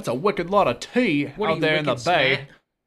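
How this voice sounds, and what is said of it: Bad put-on Boston accent, sounds English. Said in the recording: “That is a really bad Boston accent. ... Yeah, I know. That was like English, actually.”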